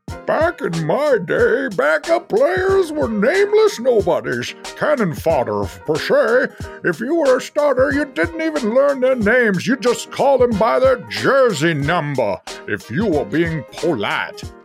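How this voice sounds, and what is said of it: Old Southern man voice. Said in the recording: “do an old man voice ... Old Southerner”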